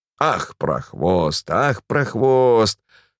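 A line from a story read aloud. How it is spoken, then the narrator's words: Wheezing through clenched teeth. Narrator (Russian): сквозь зубы сипела Пелагея Ивановна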